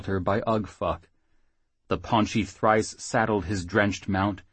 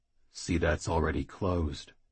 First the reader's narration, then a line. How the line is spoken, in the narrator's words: the big thrice said, quietly